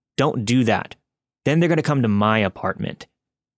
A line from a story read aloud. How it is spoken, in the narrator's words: Anthony spoke up angrily